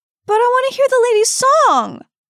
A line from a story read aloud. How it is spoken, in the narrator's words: wailed the child